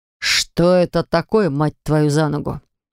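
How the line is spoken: Growling. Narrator (Russian): зарычал он

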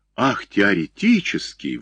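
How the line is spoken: Playful exclamation. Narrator (Russian): воскликнул он, включаясь в игру

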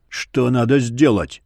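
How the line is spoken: Growled. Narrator (Russian): рыкнул

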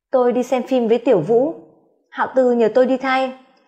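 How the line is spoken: Cold reply. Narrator (Vietnamese): Hạ Tử Quyên bề ngoài lạnh lùng đáp lại anh

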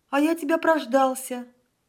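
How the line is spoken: Sour exclamation. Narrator (Russian): воскликнул он, скорчив кислую мину

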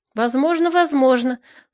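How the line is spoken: Excited agreement. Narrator (Russian): взволнованно соглашался коломеец

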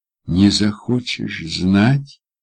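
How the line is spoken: Gentle question. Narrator (Russian): мягко уточняю

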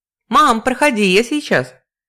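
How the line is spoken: Distant shout, daughter. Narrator (Russian): крикнула из глубины квартиры дочь

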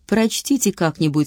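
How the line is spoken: Plain. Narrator (Russian): сказал

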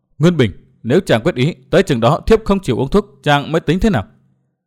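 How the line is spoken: Pale, muttering. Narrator (Vietnamese): sắc mặt của Đinh Linh đã xám ngắt, nàng lẩm bẩm

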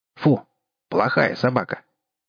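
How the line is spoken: Stern old man's voice. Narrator (Russian): Старикан сказал строгим голосом

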